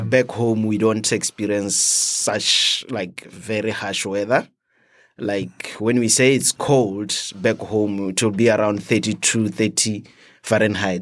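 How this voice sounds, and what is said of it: Foreign, non-American accent. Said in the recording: “working in Botswana for 11 years, coming here to the US ... You come here, you have a different accent.”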